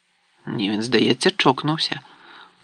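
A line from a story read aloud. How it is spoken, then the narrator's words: Muttered into ear. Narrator (Ukrainian): пробурмотів Рон на вухо Гаррі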